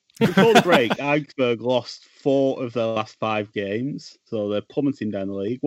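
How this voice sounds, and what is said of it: Northern English Burnley accent. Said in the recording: “I support Burnley, sorry if you didn't already know or could tell from the accent”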